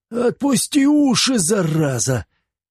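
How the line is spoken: Angry shout. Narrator (Russian): закричал на Косова

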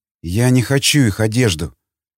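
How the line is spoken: Trembling whisper, young woman. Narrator (Russian): Дрожащим голосом и потрескавшимися окровавленными губами прошептала девушка

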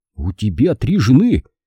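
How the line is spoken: Astonished exclamation. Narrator (Russian): изумленно воскликнул Нат

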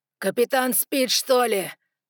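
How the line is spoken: Growled. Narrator (Russian): прорычал Ноа

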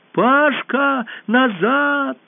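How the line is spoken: Alarmed urgent shout. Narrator (Russian): И Алиса, понимая, что произойдет, если Пашка сейчас поднимет голову и увидит вблизи робота, закричала

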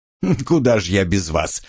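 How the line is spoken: Snort. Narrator (Russian): хмыкнул я

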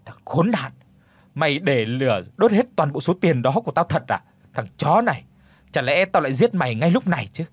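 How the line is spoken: Angry shouting. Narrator (Vietnamese): Vương giận dữ quát lớn

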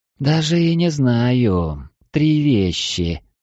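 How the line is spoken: Drawling maiden. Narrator (Russian): протянула первая дева

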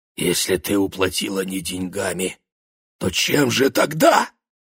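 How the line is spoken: Trembling, choked whisper. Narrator (Russian): шепнул он дрожащим голосом, как будто ответ, которого он еще не слышал, уже стиснул его горло

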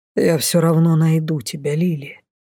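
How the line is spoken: Whispered. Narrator (Russian): шепнул Дефос

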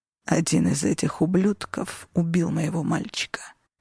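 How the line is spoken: Hoarse audible whisper. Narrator (Russian): хрипло прошептал он, но достаточно громко, чтобы все в комнате это услышали

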